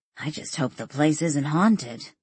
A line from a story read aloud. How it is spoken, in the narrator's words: Danielle murmured